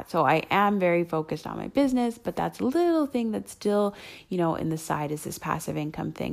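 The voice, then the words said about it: Hoarse voice. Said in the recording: “my voice is a little bit hoarse. ... So I don't know why my voice is so hoarse”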